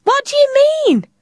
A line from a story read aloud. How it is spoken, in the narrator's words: Tilly shouted